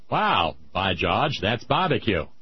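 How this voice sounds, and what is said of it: Poor attempt at Maine accent. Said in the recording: “My main accent's not so good.”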